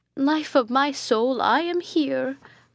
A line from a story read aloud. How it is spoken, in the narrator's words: cried Hippolyta